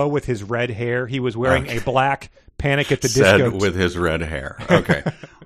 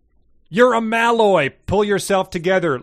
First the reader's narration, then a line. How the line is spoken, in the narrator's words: Lucas shouted